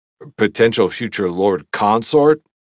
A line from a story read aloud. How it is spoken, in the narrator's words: I scoffed at the title